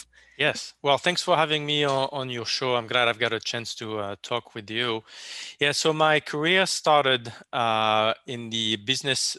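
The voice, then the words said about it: Speaks with a foreign accent. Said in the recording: “this time it's a voice with an accent”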